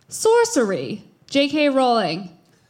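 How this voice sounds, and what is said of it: Put-on British accent. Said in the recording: “say sorcery in a British accent”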